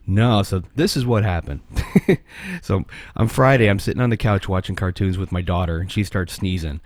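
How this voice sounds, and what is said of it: Hoarse, fading voice. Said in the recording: “I'm sick. So I'm losing my voice too”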